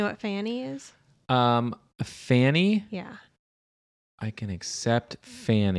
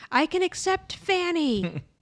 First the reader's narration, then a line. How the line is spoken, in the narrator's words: Beard yells